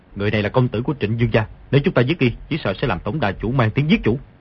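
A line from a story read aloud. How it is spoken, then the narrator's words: Low voice. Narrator (Vietnamese): hạ giọng nói với Ngô Lục Kỳ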